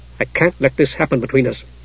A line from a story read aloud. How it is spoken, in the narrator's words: he said firmly